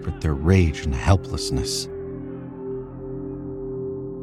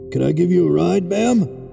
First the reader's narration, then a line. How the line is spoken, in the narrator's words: His voice sounds hollow and foreign inside the gas mask